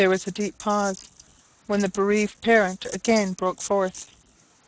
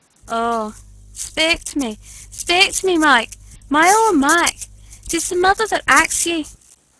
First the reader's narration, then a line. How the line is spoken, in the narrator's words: she exclaimed amid broken sobs and groans